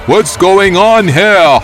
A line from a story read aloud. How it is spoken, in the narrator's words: shouting in an authoritative voice